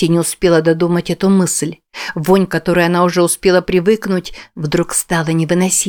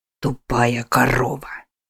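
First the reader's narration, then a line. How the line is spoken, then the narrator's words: Hissing. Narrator (Russian): прошипел Уильям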